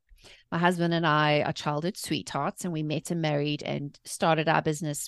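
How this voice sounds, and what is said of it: South African accent. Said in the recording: “As you can tell, I have an accent. I was born and raised in South Africa.”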